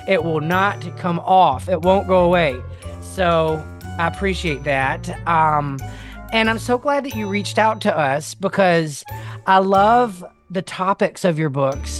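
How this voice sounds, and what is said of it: Southern US accent. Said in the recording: “I'm from South Mississippi... I love your accent... Some say that I have one. I've lived in I've lived in New Orleans for a real long time, and it's like gum on the bottom of my shoe.”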